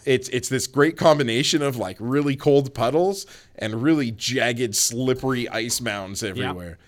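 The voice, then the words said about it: Deadpan, flat sarcastic delivery. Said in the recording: “was my deadpan really throwing you off”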